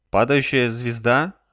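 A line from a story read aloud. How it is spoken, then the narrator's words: Confused questioning. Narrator (Russian): растерянно переспросил Алек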